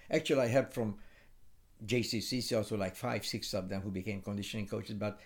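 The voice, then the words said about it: Non-native accent in English. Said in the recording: “my accent, so they didn't care about my accent”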